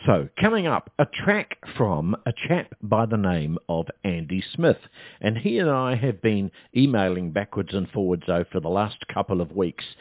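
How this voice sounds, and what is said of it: Deeper voice from a cold. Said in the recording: “I've had a bit of a cold lately, and as you can probably tell, my voice is a little bit deeper this week. So if I'm going to cough”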